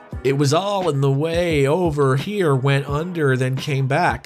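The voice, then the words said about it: Put-on accent. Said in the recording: “I'll do the accent.”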